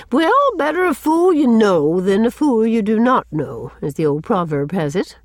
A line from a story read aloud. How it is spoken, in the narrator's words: she remarked cheerfully